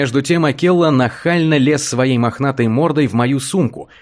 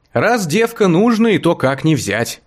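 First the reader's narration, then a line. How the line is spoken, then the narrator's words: Laughing. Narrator (Russian): рассмеялась сестренка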